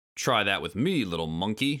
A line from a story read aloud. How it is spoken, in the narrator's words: shouted Clump